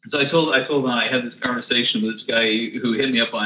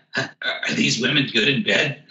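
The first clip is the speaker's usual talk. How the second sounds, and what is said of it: Beavis and Butthead impression. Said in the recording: “I'm going to do this with a Beavis and Butthead voice, my best Beavis and Butthead impression.”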